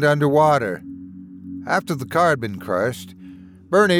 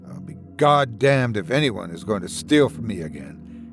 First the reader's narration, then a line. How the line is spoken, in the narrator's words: he said